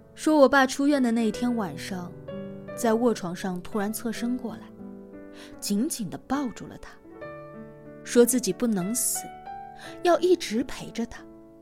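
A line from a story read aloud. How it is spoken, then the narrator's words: Tearful low voice. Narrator (Chinese): 我妈没有笑，忽然红了眼睛，低声说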